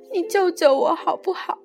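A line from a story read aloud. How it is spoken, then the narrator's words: Crying. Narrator (Chinese): 他哭着说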